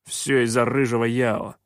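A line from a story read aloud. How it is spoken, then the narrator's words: Grumbling. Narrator (Russian): проворчал Шутай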